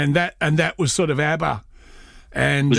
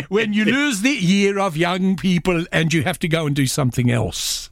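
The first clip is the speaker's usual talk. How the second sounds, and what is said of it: Put-on Yiddish accent. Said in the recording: “now I've got to do this for Yiddish accent”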